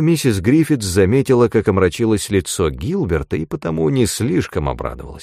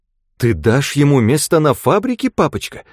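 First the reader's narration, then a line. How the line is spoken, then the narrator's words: Exclaiming. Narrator (Russian): воскликнула она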